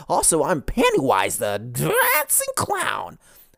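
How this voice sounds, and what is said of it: Pennywise the Dancing Clown impression. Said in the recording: “I just realized midway through that I sounded like Pennywise. I had to kind of double down for that impression.”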